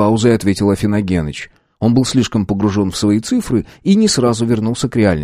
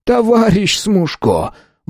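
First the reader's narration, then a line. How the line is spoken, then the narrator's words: Man pleading. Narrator (Russian): взмолился мужчина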